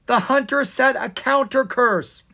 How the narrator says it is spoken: he shouted

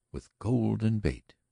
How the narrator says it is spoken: she admitted, her voice oddly spiritless

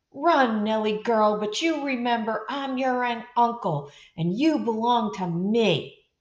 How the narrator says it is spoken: Uncle Mike shout after her

